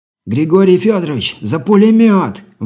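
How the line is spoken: Shouted out. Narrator (Russian): выкрикнул разведчик

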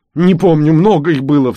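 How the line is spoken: Sobbing reply. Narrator (Russian): всхлипывая отвечал я

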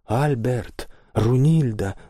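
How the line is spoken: Exclamation. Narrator (Russian): воскликнул господин Освальд

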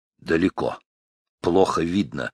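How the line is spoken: Dry. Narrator (Russian): сухим голосом, не оборачиваясь, сказал он Чаеву

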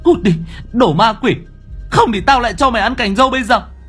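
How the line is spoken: Angry shout. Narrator (Vietnamese): cô hét lên

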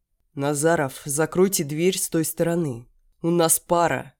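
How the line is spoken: Growling. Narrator (Russian): зарычал Логинов

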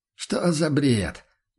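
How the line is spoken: Confident peasant objection. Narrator (Russian): уверенно возразил крестьянин

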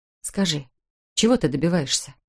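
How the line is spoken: Tired repetition. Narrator (Russian): Устало повторила

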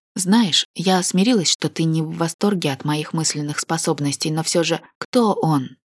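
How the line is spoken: Gentle insistence. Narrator (Russian): настаивала мягко

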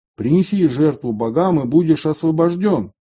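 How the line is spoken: Loud herald's cry. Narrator (Russian): глашатай громко выкрикивал

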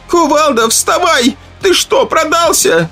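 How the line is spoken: Hoarse shouting woman. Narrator (Russian): кричала женщина хриплым голосом

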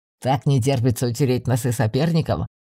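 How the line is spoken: Surprised snort. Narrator (Russian): хмыкнул Ревар, но он явно был удивлен

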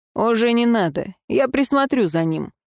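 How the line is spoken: Snort. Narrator (Russian): фыркнул Даррен

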